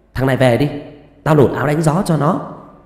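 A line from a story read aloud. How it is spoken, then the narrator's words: Shouting. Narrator (Vietnamese): quát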